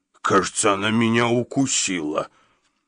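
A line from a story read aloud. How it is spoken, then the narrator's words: Bewildered, forced out. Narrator (Russian): недоуменно выдавил Гадсон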